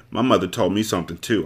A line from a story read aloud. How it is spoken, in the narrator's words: I said harshly